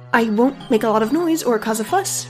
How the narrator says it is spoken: Roisin said quickly

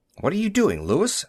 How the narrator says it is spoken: Millard asked anxiously

